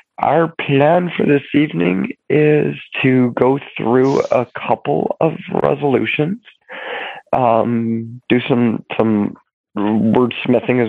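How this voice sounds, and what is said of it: Hoarse, cracking voice from a cold. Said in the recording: “I apologize for my voice... I woke up this morning with a cold and have been talking roughly for about 8 hours today... my voice is definitely cracking”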